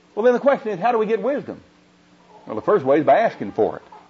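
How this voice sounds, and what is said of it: Oklahoma accent. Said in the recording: “is my accent bothering you? ... This Oklahoma accent's not bothering you, is it?”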